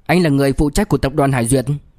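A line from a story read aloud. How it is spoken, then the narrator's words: Cold, deep voice. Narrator (Vietnamese): Liễu Kinh Vũ lạnh lùng nhìn La Cương, trầm giọng nói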